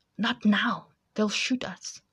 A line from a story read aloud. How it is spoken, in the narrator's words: she whispered to Cully